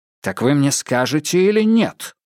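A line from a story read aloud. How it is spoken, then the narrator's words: Sharp question after pause. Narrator (Russian): После долгой паузы Адамс спросил резко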